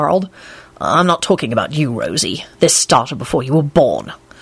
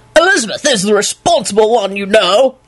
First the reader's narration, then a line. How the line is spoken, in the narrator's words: Lupin yelled in Richard's booming, self-righteous voice